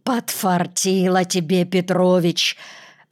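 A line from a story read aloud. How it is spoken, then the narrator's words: Hoarse voice with a cold. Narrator (Russian): раздался позади хриплый простуженный голос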